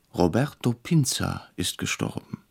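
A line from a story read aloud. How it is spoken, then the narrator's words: Startled, quiet. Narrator (German): erschrocken sagte leise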